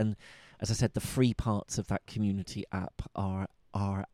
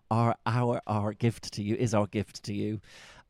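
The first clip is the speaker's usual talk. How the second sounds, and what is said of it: Put-on Bristol accent. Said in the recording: “I'm trying to say that with my Bristol accent.”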